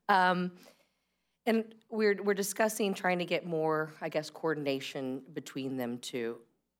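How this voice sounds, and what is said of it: Tired-sounding voice. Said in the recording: “I was up late reading this last night, as you can probably hear from my voice.”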